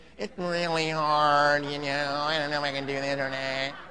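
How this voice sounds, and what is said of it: Whiny nasal complaining voice. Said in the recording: “Don't call me with that nasal voice ... If you give me that nasal voice”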